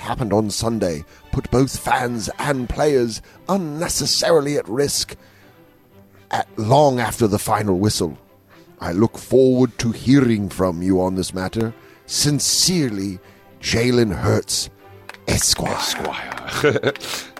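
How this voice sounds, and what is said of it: Put-on formal constable voice. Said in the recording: “You were putting on the accent ... It should be read like that by a constable ... It's only to be read in constable voice”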